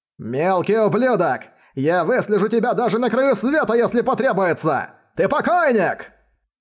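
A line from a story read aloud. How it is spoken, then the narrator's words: Old man's anguished shouting. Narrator (Russian): кричал краснолицый патриарх, с болью в сердце вспоминая потерянные духовные камни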